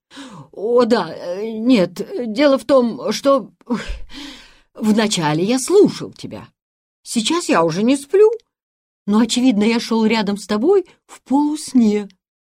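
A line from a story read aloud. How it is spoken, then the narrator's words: Stammering embarrassed mumble. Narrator (Russian): запинаясь, пробормотал Якоб, и лицо у него было такое оторопевшее и смущенное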